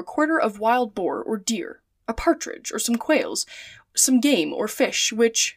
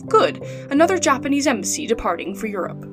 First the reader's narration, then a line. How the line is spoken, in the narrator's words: Passepartout chuckled and said to himself